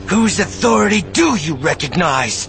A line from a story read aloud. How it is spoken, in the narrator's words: She shouted